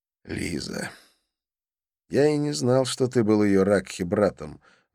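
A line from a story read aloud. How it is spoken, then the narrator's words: Sighing. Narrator (Russian): вздохнул я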